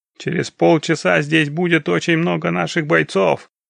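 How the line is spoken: Distant guttural shout. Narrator (Russian): гортанным голосом крикнул кто-то со стороны дома

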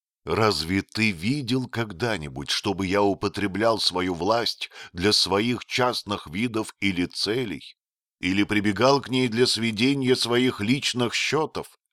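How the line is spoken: Plain. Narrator (Russian): спросил принц

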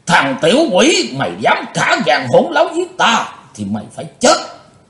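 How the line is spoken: Panicked loud roar. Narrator (Vietnamese): Hắn hốt hoảng gầm to lên

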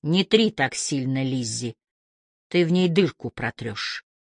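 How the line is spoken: Muffled, from above. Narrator (Russian): Откуда-то сверху голос Гордона глухо сказал

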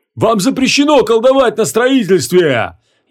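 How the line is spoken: Furious shout. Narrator (Russian): яростно закричал он

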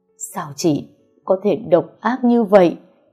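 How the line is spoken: Tearful shriek. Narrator (Vietnamese): Mẹ chồng tôi ẩn ẩn nước mắt, rồi rít lên

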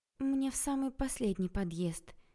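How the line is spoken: Sad sigh. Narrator (Russian): печально вздохнула я

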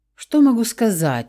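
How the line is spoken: Sigh. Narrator (Russian): вздохнул Давид

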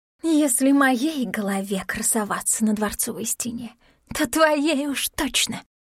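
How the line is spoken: Hissing whisper. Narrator (Russian): шипящим шепотом заверила она

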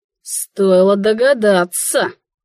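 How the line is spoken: Said through teeth. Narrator (Russian): процедил

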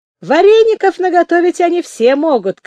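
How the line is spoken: Shouting fat man. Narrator (Russian): крикнул толстопят

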